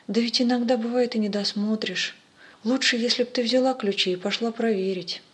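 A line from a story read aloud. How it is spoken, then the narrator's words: Gentle objection. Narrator (Russian): батюшка ласково возразил мне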